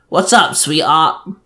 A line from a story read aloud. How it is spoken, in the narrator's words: asked me in a gruff voice